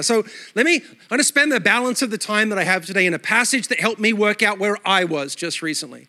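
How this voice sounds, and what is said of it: Mixed Australian-American accent. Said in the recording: “My accent is a mutt. Australia all my life, then New York City for 12 years... I sound Australian to Americans and American to Australian.”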